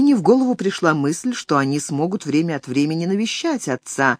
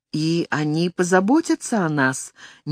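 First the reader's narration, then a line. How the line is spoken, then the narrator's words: Uncertain question. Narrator (Russian): неуверенно спросила Алина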